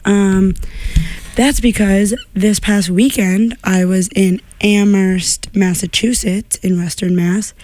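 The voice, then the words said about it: Hoarse, partly lost voice. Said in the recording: “my voice is a little bit gone today.”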